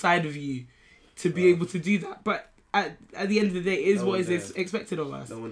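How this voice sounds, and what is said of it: Usual voice. Nothing is said of it.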